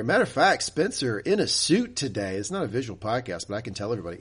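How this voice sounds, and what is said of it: Sick, slightly off voice. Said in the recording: “I didn't have a voice yesterday. As you can tell, my voice is a little off today”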